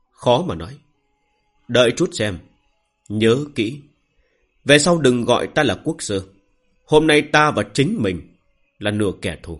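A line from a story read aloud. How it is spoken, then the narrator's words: Sighing. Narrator (Vietnamese): Thôi Đông Sơn thở dài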